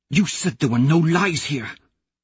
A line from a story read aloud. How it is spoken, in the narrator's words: Mustang hisses